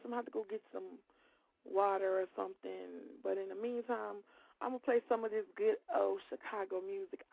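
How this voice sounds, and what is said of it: Losing voice, strained. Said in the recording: “it's like cold in my house, so I'm kind of like losing my voice.”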